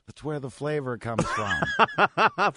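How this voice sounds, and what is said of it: Imitation of a colleague's voice. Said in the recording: “did an impression ... Did you just do Rob? ... Not a very good one.”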